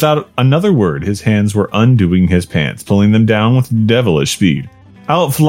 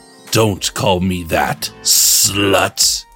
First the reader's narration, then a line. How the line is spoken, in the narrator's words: he hissed